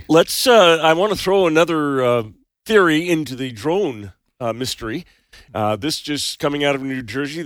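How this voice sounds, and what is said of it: Slightly raspy voice. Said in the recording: “Getting over this cold thing, so voice is still a little raspy”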